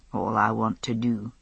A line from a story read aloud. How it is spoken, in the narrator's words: he murmured in my ear